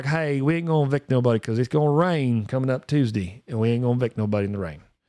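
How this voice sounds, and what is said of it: Put-on rural country accent. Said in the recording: “I am from the country, so I can do this accent.”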